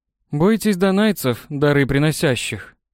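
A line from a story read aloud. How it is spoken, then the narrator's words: Sarcastic snort. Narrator (Russian): саркастически хмыкнул Пикинс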